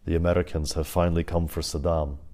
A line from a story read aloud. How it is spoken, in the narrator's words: he announced quietly, firmly